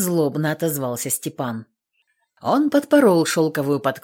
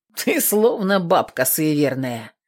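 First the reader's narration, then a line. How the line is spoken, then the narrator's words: Snorting. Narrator (Russian): фыркнул голуба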